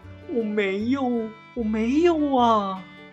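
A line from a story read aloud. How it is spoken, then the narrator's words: Crying. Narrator (Chinese): 卞雅敏哭着对哥哥们说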